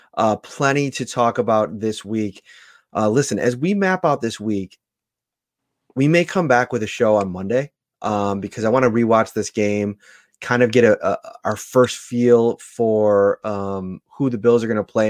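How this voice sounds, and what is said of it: Hoarse, fading voice. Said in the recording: “I'm kind of mm-hmm. losing my voice”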